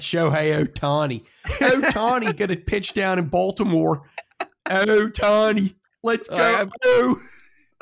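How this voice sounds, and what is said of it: Shouted put-on Baltimore accent. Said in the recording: “You are screaming in a Baltimore accent.”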